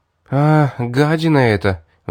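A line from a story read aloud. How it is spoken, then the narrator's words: Sighing. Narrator (Russian): вздохнула Элизабет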